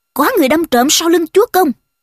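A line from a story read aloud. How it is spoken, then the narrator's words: Thunderous furious shout. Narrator (Vietnamese): trừng mắt quát lớn một tiếng, rung chuyển cả mặt trận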